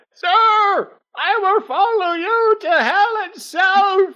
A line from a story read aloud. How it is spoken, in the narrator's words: a crew member that shouts